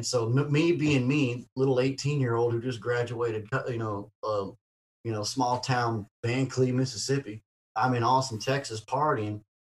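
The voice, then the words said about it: Heavy, hard-to-understand accent. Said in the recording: “My accent is so horrible that when I say Jeremy, everybody always hears something else.”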